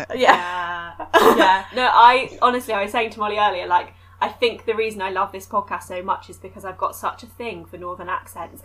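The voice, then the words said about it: British accent, soothing voice. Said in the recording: “I find your voice really soothing ... your accent ... So British”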